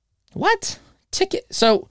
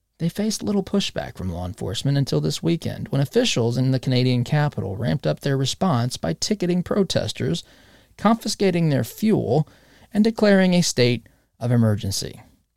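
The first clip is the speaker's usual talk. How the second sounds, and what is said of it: Mock NPR announcer voice. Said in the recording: “Get back to my NPR voice.”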